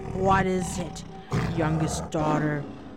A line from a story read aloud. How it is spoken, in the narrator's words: growled the tiger